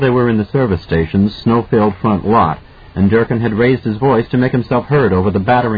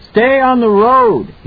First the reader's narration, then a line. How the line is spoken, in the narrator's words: he shouted at Halloran's ear